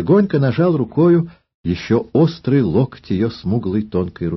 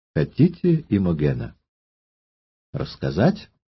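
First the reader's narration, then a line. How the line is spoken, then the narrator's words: Soft, gentle request. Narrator (Russian): просил ее тихо и ласково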